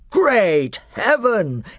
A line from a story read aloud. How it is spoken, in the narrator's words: exclaimed Miraz